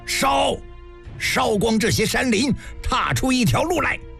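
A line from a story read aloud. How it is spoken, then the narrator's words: Collective battle cry. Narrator (Chinese): 魏军一声呐喊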